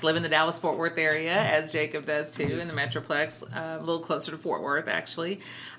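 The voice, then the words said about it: Texas accent. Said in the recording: “I'm a Texas educator. If my accent didn't make that clear”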